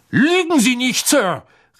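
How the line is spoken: Calling out. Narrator (German): rief Mr

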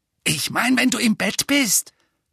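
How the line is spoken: Hissed angrily. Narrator (German): fauchte Dudley

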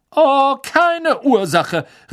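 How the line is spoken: Indignant woman calling after. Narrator (German): rief die fette Dame entrüstet nach

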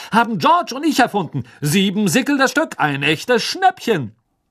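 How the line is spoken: Loud announcement to crowd. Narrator (German): verkündete Fred laut der aufgeregten Schülerschar

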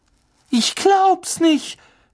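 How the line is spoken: Shouted. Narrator (German): schrie Hermine

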